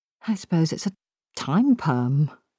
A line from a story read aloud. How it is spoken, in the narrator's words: she said wistfully